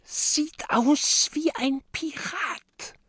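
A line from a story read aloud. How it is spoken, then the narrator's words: Whisper. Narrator (German): flüstert Mathilda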